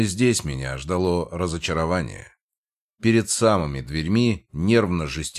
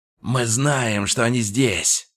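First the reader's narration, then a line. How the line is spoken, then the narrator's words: Rough demanding growl. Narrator (Russian): прорычал один из головорезов, его голос был грубым и требовательным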